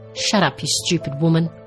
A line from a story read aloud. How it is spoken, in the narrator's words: she snarled in Eleanor's ear